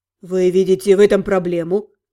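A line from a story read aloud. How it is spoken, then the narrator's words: Cold question. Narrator (Russian): Холодно спросил Ротан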